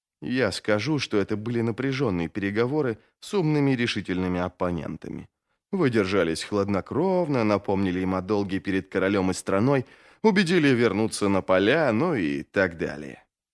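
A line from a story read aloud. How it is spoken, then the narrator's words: Whisper in ear. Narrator (Russian): прошептал первый из магов на ухо Джизалю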